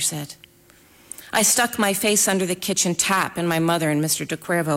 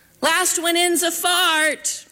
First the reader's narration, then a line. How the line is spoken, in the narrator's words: I screamed